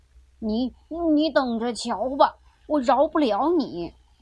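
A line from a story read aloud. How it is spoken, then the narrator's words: Old man shouting. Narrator (Chinese): 老爷爷喊着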